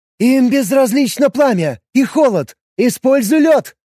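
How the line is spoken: Shouted. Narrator (Russian): прокричала Гри

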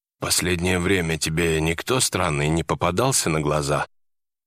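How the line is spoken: Sudden low-voiced question. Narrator (Russian): Внезапно он спросил низким голосом

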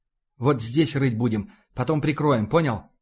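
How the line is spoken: Hurried. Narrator (Russian): Торопливо обернулся капитан к сержанту

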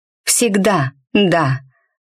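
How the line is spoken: Breathy exhale. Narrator (Russian): выдохнула

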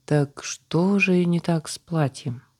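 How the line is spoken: Weary exasperated sigh. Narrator (Russian): вздохнула заказчица, уже совершенно не желая придумывать, как выпутаться из новой проблемы

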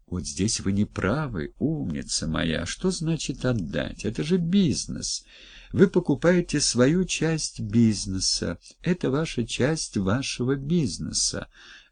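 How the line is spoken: Gentle persuading woman. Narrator (Russian): мягко увещевала дама

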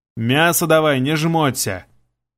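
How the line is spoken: Bossy commanding tone. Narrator (Russian): Приказал я таким начальственным тоном

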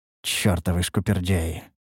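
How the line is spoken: Muttered. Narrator (Russian): пробормотал я

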